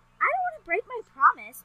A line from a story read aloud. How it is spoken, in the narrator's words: Mauricio exclaimed